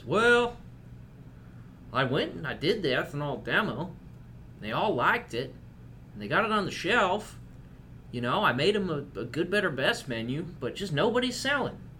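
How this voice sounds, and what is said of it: Put-on Southern accent. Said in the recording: “southern accent ... I use it to communicate apathy”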